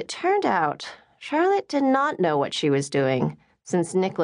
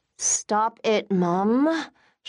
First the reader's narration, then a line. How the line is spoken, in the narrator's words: Charlotte smiled through gritted teeth